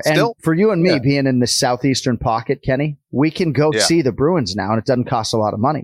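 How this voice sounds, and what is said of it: Put-on Boston accent. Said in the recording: “I'm doing the whole show basically in a Boston accent ... we're going Boston accent”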